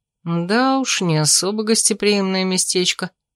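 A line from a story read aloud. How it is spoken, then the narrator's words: Muttered. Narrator (Russian): пробормотал Томин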